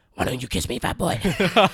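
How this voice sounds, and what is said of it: Pennywise clown character voice. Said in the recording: “Do the voice. ... That was perfect. ... my fucking impression is spot on”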